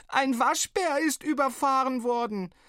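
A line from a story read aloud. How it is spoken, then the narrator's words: Sobbing and bellowing. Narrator (German): sie schluchzend brüllte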